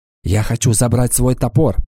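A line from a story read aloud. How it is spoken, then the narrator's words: Whisper. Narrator (Russian): шепнула она Уртоне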